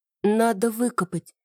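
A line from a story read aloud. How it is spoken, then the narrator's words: Calmer confirmation. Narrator (Russian): подтвердила уже чуть более спокойно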